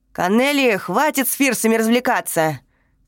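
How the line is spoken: Mannish bark. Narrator (Russian): Совсем по-мужски рявкнула Фредди

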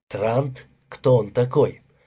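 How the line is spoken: Quiet phone conversation. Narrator (Russian): брат негромко разговаривал по телефону

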